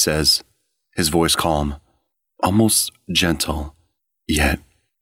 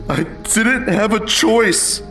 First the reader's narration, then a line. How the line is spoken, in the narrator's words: I yelled, my voice breaking